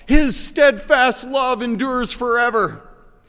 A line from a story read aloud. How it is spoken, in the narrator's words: the choir of priests shout